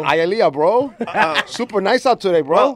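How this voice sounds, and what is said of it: Put-on Miami Hialeah accent. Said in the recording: “that Hialeah accent”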